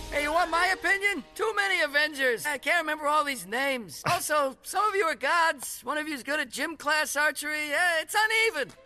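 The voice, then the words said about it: Bad Larry David impression. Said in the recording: “worst Larry David impression I've ever heard in my life”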